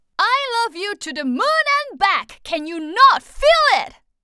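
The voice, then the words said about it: Very loud, projected voice. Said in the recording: “be really loud”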